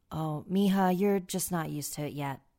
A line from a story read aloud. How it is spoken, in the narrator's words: said